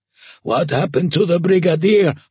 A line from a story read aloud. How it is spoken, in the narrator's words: Homer croaked, tearing off his stifling gas mask